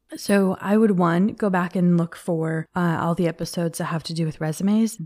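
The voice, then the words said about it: Strained, failing voice. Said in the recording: “my voice is like trying to leave. So if it sounds a little bit funky this week”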